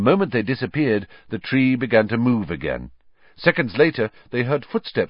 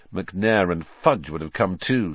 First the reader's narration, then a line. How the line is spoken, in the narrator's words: said Harry bitterly